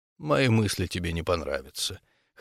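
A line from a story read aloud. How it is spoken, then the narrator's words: Cold, quiet, ancient voice. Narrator (Russian): холодным и тихим голосом заговорил древний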